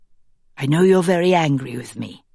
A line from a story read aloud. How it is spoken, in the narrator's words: the woman says